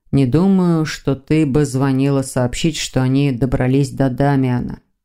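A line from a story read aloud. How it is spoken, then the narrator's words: Grim remark. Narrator (Russian): мрачно заметил Виктор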